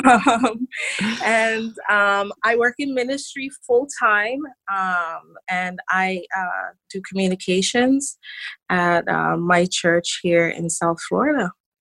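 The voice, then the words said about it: Caribbean St. Kitts accent. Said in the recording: “where the accent comes in ... I am from a very beautiful, tiny island in the Caribbean. It's called St. Kitts. ... Formerly a British colony. ... So that's where the accent comes from.”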